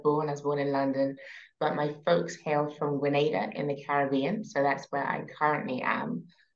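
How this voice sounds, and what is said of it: British accent. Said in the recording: “From my accent, you can tell I'm originally from the UK.”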